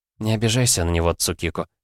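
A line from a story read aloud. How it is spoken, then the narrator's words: Quiet speech. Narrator (Russian): тихо заговорила Кицуне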